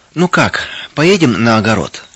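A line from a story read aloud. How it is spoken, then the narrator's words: Quiet question. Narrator (Russian): тихо спросила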